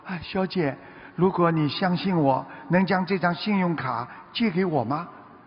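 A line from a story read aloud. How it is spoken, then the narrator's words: Quiet, embarrassed. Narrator (Chinese): 他有点难为情，小声地说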